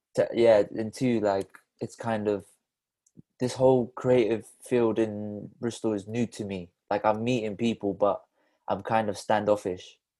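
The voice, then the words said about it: Slight Bristol accent. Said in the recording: “you're from Bristol originally as well. ... I detect a little accent in there.”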